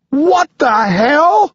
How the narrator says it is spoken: I shout

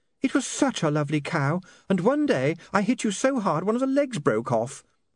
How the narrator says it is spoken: said Saccharissa dreamily

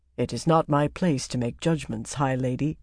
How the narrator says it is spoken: he said gravely

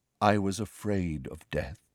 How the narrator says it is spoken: said Nick softly

